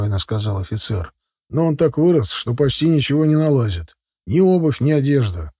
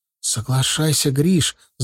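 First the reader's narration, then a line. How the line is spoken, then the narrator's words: Whisper. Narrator (Russian): зашептала Шура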